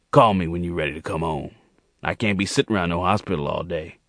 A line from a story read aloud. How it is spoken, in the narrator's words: Jordan growled at Monique in his gravelly voice